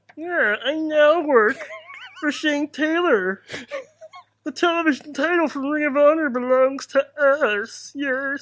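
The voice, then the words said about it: Weird Kermit-like preacher voice. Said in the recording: “give him the voice ... Kermit? ... That's the weirdest preacher voice I've ever heard.”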